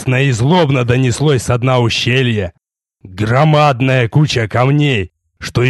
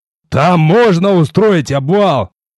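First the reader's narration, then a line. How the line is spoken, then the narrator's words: Shouted into the air. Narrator (Russian): крикнул в пространство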